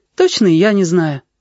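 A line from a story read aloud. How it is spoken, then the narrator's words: Sighing gosling. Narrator (Russian): вздохнул гусенок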